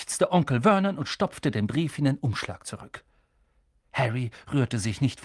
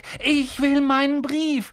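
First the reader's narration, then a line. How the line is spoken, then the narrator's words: Called out. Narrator (German): rief er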